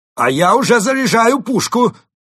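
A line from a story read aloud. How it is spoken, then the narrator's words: Frantic shout, mole. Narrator (Russian): выкрикнул крот, судорожно соображая, как выпутаться из этой передряги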